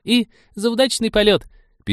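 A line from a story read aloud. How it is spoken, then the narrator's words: Squeaked. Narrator (Russian): пискнула Полина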